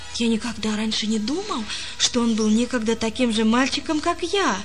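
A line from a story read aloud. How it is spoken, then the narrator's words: Plain. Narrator (Russian): сказал он Лессингу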